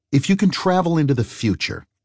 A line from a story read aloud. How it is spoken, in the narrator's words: Eli asked